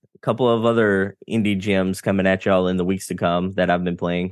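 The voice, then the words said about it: Speaks with a twang. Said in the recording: “You do it with your own twang ... An Englishman in New York, but reversed.”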